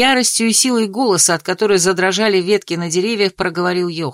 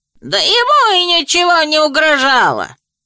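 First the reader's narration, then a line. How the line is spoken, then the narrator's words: Shrill old man's shout. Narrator (Russian): визгливо выкрикнул сморщенный старичок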